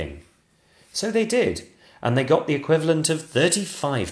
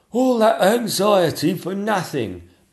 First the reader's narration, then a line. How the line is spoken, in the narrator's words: moaned the Lord Chamberlain